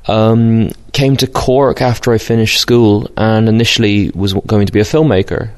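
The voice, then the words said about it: Mixed British-Irish accent. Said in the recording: “I'm Brit-Irish, so that's why my accent sounds a bit peculiar, I guess, sometimes.”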